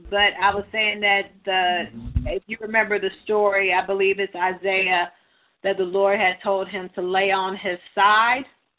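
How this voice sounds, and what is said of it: Dry, slightly strained voice. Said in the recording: “my voice is a little bit because I'm dry.”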